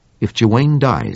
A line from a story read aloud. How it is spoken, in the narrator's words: said Henderson